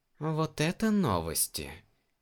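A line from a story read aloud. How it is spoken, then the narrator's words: Slow drawl. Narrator (Russian): медленно протянул Гэрон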